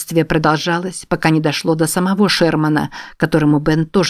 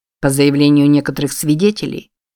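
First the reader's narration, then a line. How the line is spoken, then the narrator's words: Cold. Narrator (Russian): холодно произнес генерал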